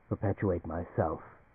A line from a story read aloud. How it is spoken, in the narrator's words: the creature opposite him said quietly